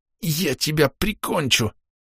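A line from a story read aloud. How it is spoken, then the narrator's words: Angry hiss. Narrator (Russian): прошипел кто-то очень злой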